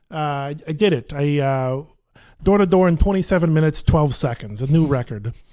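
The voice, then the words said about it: Nasal put-on Brooklyn accent. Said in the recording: “a pretty decent Brooklyn accent ... this is getting close ... I'm putting more into my nasal resonator”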